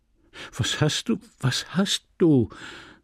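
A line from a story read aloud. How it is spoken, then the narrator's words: Flustered stammering. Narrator (German): stammelte verdattert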